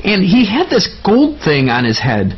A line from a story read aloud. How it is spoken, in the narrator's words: Colton chirped on enthusiastically